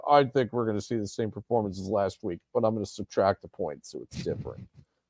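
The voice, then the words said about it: Imitates another person's voice. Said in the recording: “that your Riley impersonation? ... It kind of is.”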